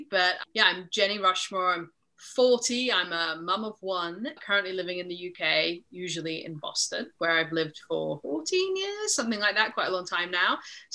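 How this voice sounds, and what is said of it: Slight mid-Atlantic accent. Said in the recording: “I have a slightly mid-Atlantic accent.”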